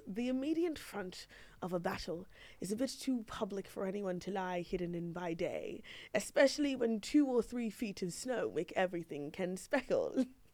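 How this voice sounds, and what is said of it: Put-on accent while reading. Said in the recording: “Tried to do the accent.”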